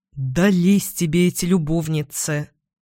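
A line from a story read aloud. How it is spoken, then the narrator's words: Grumble. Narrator (Russian): буркнул Эдвин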